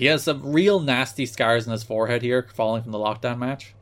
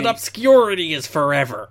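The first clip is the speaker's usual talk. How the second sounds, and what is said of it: Imitates another person's voice. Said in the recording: “do your Raven impression ... this is Napoleon through Raven”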